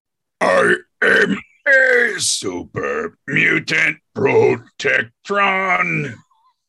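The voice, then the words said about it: Super mutant Protectron character voice. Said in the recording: “could you do an impression of a super mutant Protectron? ... Great. That was great.”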